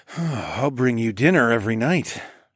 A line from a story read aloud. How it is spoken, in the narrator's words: I sighed